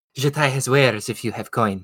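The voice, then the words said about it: Khajiit video game character accent. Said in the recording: “I basically just did the Khajiit accent for him ... That's frighteningly close.”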